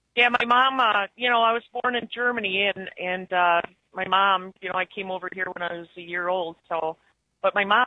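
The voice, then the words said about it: Noticeable northern US accent. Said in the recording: “I never knew about a northern accent until people started asking me, are you from Canada? Did you, Minnesota? ... It's definitely a noticeable accent.”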